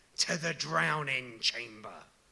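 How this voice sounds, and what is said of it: Scary theatrical voice. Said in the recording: “in his scariest voice”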